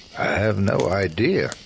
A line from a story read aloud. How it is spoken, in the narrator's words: I said flatly